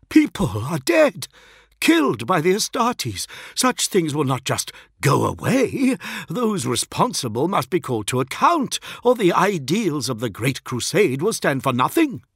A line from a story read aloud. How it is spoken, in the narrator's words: gasped Braxton